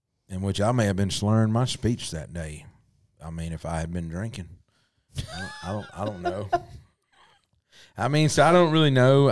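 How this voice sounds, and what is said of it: Southern American accent. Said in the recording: “Southern accents ... I didn't choose this accent ... This Southern life chose us.”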